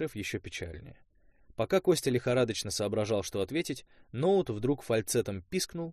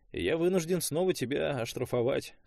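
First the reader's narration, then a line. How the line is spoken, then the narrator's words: Sad. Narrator (Russian): сказал шеф печально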